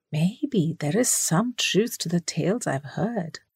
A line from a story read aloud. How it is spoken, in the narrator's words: he muttered